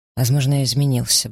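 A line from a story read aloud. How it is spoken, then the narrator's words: Curt, clipped. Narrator (Russian): бросила отрывисто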